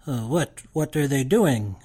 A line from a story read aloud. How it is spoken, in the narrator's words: I whisper